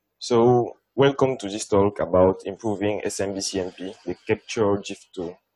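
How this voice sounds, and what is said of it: Non-native English accent. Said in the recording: “my accent is not that good”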